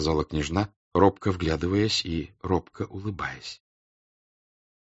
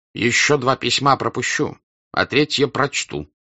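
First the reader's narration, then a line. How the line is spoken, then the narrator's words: Stern. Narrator (Russian): строго сказал князь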